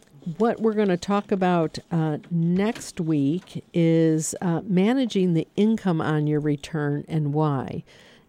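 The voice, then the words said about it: Hoarse, failing voice. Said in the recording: “I'm losing my voice right here at the tail end of the show”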